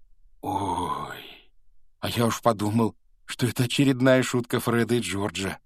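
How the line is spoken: Breathed out. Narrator (Russian): выдохнул Рон

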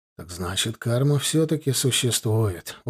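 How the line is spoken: Satisfied mutter. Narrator (Russian): удовлетворенно пробормотал парень

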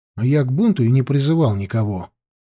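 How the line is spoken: Grumbling. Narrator (Russian): буркнул Лёшка

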